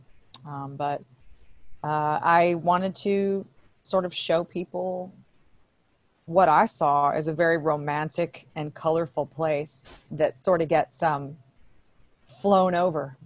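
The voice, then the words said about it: Southern US accent. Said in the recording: “I've lived in the South. You can probably tell by my accent.”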